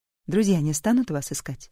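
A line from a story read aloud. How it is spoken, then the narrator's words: Plain. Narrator (Russian): спросила Энн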